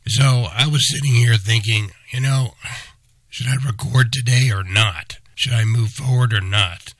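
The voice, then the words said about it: Strained voice, can barely talk. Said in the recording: “as you can hear from my voice, I can barely talk ... forever memorialized in the way I sound ... as I struggle”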